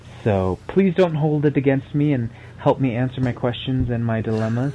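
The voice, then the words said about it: Speaks with a noticeable accent. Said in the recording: “you guys love the accent ... your accent did get you onto the show”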